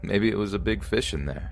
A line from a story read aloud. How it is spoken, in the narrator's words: He was confused and laughed it off with